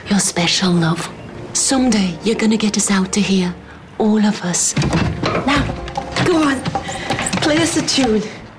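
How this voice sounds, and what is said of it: Vague, wandering accent. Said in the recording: “a vague, wandering accent”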